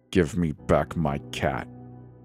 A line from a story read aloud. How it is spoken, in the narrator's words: heart slamming my ribs like a sledgehammer as I growl